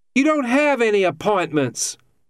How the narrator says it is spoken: Jan yelled back

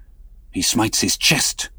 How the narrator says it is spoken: whispered Stubb

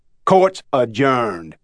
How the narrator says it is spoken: His Honor said rudely

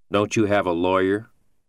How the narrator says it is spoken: Beach asked

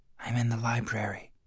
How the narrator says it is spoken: in a hushed voice said

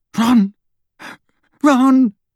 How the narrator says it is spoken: Hermione called, half-sobbing as she and Harry were buffeted by terrified guests

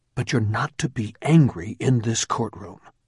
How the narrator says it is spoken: the judge whispered sternly

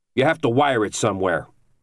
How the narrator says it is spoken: Argrow snapped back

